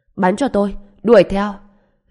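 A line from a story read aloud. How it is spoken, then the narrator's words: Shout. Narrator (Vietnamese): Lạc Kỳ hét lên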